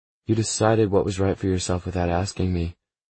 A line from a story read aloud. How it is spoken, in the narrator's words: she says flatly